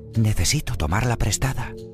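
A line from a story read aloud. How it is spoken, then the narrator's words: Whispering. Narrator (Spanish): susurró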